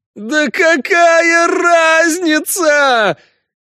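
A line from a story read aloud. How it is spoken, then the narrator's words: Howling. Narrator (Russian): взвыл живой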